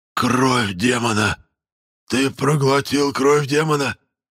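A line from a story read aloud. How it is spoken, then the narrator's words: Hoarse wheeze. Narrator (Russian): прохрипел Хокус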